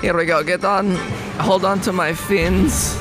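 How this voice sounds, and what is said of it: Put-on character accent. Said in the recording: “I can't remember what voice I did before, so I'm just doing this one ... I dig the accent”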